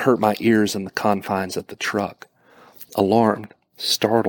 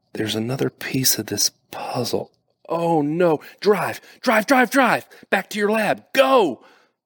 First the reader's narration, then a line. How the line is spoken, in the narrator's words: I shouted